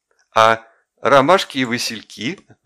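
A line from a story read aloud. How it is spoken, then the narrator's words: Laughing. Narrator (Russian): засмеялась Варя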